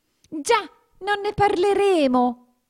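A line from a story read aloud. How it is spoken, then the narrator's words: Terrified trembling shout. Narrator (Italian): gridò il topo, che aveva la tremarella fino alla punta dei baffi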